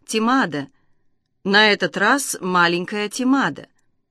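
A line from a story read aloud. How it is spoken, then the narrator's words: Soft speech. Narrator (Russian): Гангила, мягко сказав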